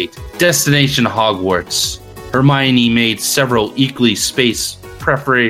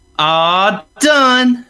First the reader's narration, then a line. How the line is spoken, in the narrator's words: she exclaimed